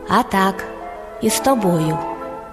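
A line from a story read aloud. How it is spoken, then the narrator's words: Hedgehog, calm. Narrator (Ukrainian): їжак спокійно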